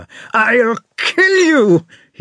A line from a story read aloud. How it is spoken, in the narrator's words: he shouted